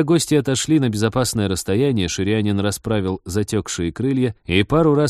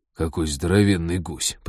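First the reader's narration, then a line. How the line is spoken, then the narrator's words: Muttering over intercom. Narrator (Russian): пробормотал Базиль по внутренней связи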